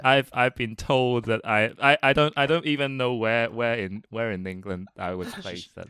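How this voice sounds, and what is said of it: Mixed southern English and Hong Kong accent. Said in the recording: “My natural accent is it's a bit of a mix between a vague southern accent and a Hong Kong accent ... it's like a vague southern English accent ... A mixture of a Hong Kong accent ... yeah, I can hear that.”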